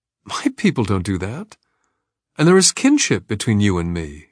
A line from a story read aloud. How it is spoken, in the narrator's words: she said, her tone stubborn but uncertain